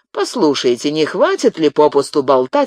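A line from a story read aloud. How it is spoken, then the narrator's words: Snapped irritably. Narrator (Russian): огрызнулся Арно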